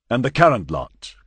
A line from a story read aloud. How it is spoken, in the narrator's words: Campion asked